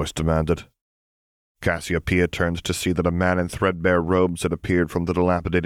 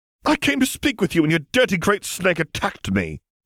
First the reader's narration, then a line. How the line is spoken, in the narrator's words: Cassiopeia replied indignantly